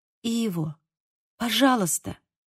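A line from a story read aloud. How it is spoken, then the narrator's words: Quiet speech. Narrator (Russian): тихо сказала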